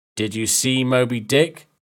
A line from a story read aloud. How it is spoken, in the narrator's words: Captain Ahab asked